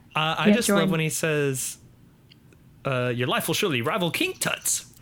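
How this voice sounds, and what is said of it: Spot-on impersonation of a character. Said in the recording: “pretty good impersonation. Impersonation. ... Every time he's done it, it's been pretty spot on.”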